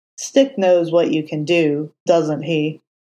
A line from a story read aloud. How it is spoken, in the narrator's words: Foggy asked, his tone grim